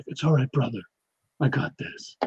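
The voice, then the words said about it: Imitates another person's voice. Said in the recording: “my Pedro Pascal impression.”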